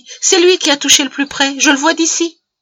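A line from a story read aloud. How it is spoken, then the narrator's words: Exclaimed. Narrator (French): s'écria Patty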